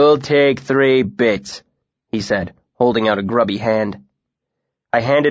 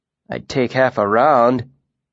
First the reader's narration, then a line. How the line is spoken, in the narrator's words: grumbled